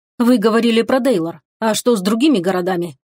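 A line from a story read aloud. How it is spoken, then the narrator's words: Plain. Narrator (Russian): спросил Чунсок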